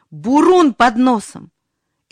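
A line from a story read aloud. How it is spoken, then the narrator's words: Unnaturally loud shout. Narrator (Russian): крикнул неестественно громким голосом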